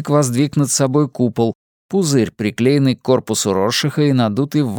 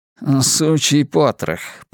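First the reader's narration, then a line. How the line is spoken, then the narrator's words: Muttered. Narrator (Russian): пробормотал Шпиндель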